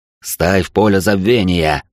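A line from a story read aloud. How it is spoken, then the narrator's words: Growled. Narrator (Russian): прорычал он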